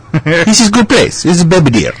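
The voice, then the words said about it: Mock broken Polish accent. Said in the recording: “Guy has a broken accent. ... He's Polish.”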